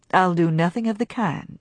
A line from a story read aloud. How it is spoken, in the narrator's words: he returned calmly